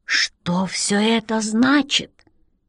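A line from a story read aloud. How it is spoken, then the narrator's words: Astonished whisper. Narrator (Russian): изумленно прошептал Рек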